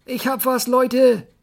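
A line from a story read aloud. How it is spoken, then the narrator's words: Called out. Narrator (German): rief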